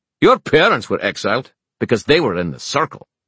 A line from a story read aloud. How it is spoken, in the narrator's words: snapped Balog